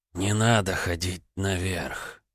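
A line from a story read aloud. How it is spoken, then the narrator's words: Breathed out. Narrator (Russian): выдохнул Се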